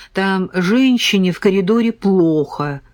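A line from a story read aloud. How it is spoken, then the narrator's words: Plain. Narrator (Russian): сказал Сергей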